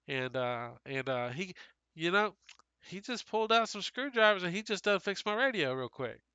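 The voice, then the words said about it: Put-on accent. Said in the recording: “I'm uncomfortable with the accent.”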